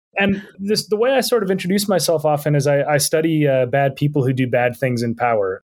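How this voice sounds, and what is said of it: American, not English accent. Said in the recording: “I grew up in Minnesota. I'm not English, as you can probably tell from my accent.”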